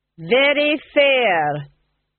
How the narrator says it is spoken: he said loudly

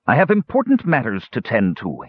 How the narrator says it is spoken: he snapped

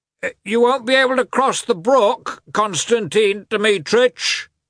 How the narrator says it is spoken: the coachman called out

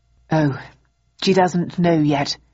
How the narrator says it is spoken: replied Bowden, sighing

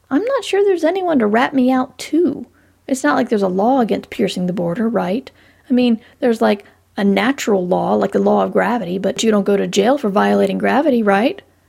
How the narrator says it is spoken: She snorted

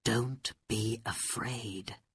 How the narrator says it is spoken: Aladdin said quietly to his wife

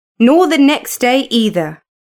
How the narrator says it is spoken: said Alan sharply

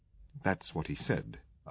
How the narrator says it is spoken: I admitted grimly

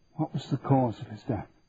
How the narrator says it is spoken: Daniel whispered

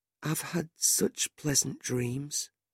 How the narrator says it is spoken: he said softly

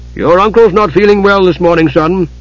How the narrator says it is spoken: Caramon said sternly

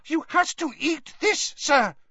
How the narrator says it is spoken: squeaked the elf

